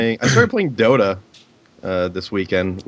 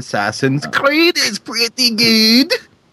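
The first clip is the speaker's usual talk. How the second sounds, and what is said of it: Poor attempt at Scottish accent. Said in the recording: “That wasn't even a Scottish accent. That was just a dumb accent.”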